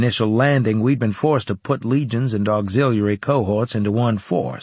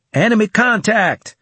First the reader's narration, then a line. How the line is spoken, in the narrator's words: I shouted